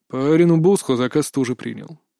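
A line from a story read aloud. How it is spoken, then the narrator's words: Calm reminder. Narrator (Russian): также спокойно напомнил Кри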